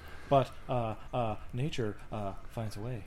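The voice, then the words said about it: Jeff Goldblum impression. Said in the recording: “Jeff Goldblum has interrupted our Skype here ... your Jeff Goldblum impression”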